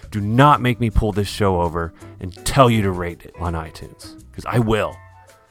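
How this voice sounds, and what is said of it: Stern dad voice. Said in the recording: “Sorry for the dad voice.”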